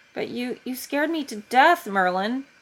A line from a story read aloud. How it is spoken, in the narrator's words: he blurts out after a moment of silence